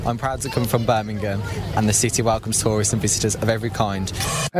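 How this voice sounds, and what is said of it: Birmingham accent. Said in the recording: “Birmingham accent”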